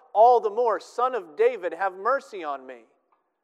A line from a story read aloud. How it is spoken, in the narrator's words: he cried out